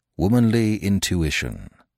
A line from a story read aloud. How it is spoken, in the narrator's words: proceeded Smith gravely